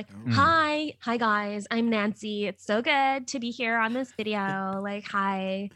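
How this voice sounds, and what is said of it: Put-on Californian accent. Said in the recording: “my accent is, it's almost like I came from California”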